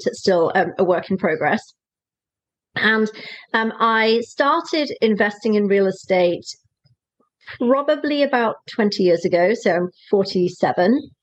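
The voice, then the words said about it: Welsh British accent. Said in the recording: “I have a funny accent. So I'm from the UK originally. I'm a Welsh girl.”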